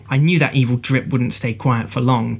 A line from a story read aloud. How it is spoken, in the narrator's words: Tara says